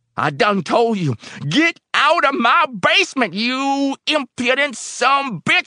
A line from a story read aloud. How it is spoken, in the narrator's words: he screamed